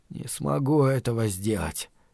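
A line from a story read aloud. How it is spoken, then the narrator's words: Mutter. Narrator (Russian): пробормотал Стью Коджаку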